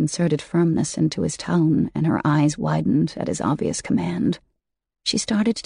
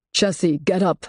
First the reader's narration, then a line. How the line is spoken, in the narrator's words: said in a more forceful tone